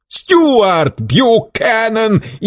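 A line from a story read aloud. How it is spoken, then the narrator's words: Hysterical shriek. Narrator (Russian): истерически взвизгнул Варбек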